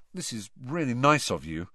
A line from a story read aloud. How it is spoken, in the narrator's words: Harry muttered